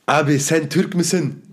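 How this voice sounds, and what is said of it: Turkish with a Japanese accent. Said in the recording (German): “in perfektem Türkisch, Alter. Im fucking perfekten Türkisch ... Mit, mit so einem Jap japanischen Akzent”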